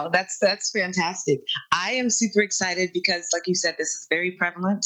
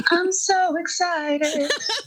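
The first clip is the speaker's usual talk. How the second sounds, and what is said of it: Imitates a TV character's voice. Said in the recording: “do my Jesse Spano impersonation.”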